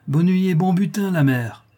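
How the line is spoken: Hollow, hoarse exclamation. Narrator (French): s'écria-t-il d'une voix creuse et enrouée

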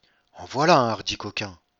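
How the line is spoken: Murmur. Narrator (French): murmura le comte

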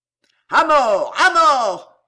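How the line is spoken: Roared. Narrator (French): rugit Danville

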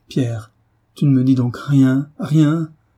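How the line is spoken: Anguished man crying out. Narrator (French): s'écria David, effrayant de douleur

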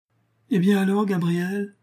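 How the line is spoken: Exclaimed. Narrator (French): s'écria Julien

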